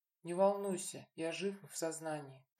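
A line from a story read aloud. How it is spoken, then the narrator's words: Quiet reply. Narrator (Russian): так же тихо отозвался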